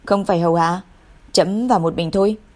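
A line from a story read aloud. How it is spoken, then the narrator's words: Indifferent, cold. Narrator (Vietnamese): Y hờ hững nói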